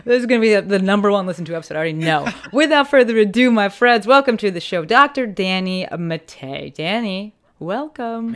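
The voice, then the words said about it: Polished radio announcer voice. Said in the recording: “you have a really good radio voice.”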